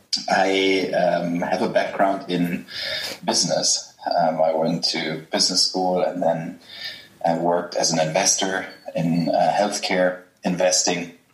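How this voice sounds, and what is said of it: German accent. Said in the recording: “I'm German, as people will realize from my accent,”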